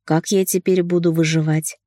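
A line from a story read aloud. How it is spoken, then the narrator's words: Laughing warm whisper. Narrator (Russian): щекоча горячим дыханием, смеясь, прошептал Демьян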